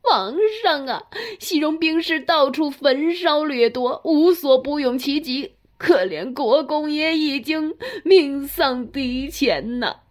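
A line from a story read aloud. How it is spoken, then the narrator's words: Whimpering, crying. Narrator (Chinese): 尹求像是丧家之犬般的哭道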